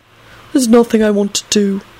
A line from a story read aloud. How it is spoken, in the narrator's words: Clive yawned